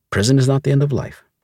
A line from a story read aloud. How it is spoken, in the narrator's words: she had said